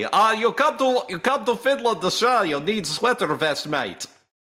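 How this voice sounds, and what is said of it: Improvised, mixed mock Finnish accent. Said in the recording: “I don't know what accent that was. That was like four different ones at once. ... I don't know what the Finnish accent sounds like ... I can't do it ... improvise my own accent for it”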